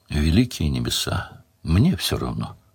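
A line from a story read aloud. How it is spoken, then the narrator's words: Weary, attempting a smile. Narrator (Russian): устало отозвалась Делия, попытавшись, впрочем, улыбнуться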